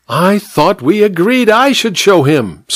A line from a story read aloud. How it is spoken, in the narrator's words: squealed the vicar petulantly